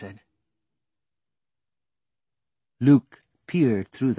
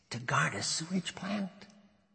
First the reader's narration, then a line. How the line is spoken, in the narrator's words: Dash laughed softly